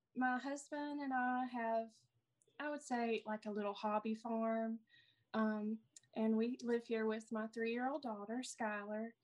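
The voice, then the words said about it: Southern US accent. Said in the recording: “I live in Alabama, as you can tell by my accent from the South”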